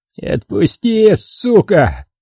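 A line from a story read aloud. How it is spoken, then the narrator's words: Moaning. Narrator (Russian): простонал он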